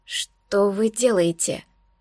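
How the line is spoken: Strained, breathless. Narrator (Russian): Через силу выдавила я, пытаясь окончательно не расстаться с дыханием

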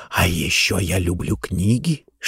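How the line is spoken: Whispering. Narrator (Russian): шептал он

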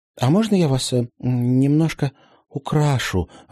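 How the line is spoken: Timid question. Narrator (Russian): робко поинтересовалась Полина у елки

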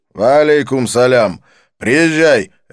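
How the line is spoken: Barked. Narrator (Russian): рявкнул он

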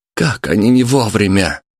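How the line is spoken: Young man exclaiming. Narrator (Russian): воскликнул парень

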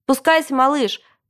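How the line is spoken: Shouting over machine noise. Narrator (Russian): прокричал папа в домофон, потому что вокруг жужжали снегоуборочные машины

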